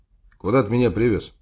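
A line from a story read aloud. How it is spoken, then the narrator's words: Plain. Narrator (Russian): спросил я Васю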